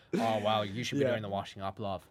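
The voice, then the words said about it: Impression of Eamonn Holmes. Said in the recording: “Was a very good impression. Oh, I was like, he's in the room.”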